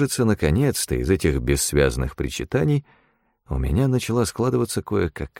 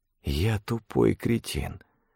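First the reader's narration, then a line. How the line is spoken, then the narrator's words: Whisper. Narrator (Russian): прошептал я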